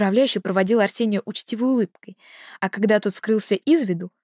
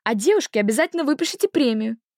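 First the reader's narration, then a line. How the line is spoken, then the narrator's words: Cheerful shout. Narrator (Russian): Весело выкрикнул Сеня напоследок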